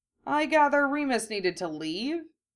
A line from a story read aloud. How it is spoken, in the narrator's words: George said dryly